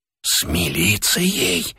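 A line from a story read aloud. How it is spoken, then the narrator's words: Whisper from the door. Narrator (Russian): прошептал голос от двери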